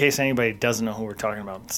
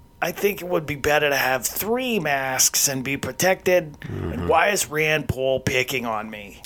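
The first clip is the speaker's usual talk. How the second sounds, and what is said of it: Dr. Fauci impression. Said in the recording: “it's Dr. Fauci ... that was a spot-on impersonation. They probably thought he was in the room with us.”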